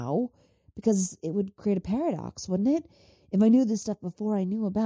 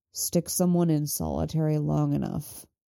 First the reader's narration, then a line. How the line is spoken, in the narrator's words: Mick says grimly